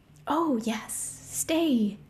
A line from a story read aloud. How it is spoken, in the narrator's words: Whisper purred